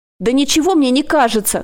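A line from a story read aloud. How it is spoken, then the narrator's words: Shouted. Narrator (Russian): крикнула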